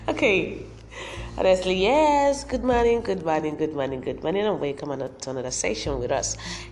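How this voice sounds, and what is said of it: Deep, congested man-like voice. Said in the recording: “I have a cold. That's why my voice sounds so like a man's voice.”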